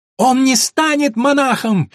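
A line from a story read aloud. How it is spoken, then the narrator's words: Shrieking. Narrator (Russian): визжала Эллен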